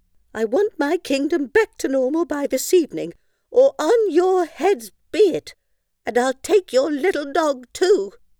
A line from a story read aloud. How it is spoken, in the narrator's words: cried the moody queen